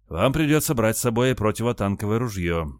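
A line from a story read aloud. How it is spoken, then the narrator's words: Sighing. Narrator (Russian): вздохнул Илья Спиридонович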